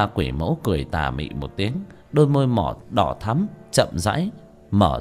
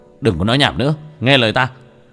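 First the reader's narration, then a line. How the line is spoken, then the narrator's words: Sharp shout. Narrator (Vietnamese): Tiểu Thất quát lên một tiếng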